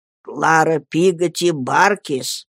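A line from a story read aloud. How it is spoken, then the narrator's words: Announcement through laughter. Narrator (Russian): объявил он, заливаясь хохотом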